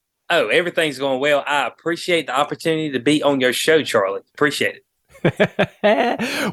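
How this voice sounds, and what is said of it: North Carolina accent. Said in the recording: “what a black man with a North Carolina accent actually sounds like”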